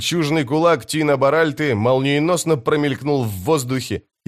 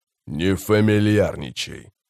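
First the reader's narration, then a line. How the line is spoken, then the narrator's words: Calm. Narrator (Russian): спокойно сказал Баральт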